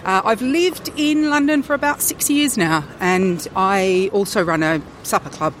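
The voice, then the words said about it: Accent not posh British. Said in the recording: “You can probably tell that my accent is not particularly pure, posh British.”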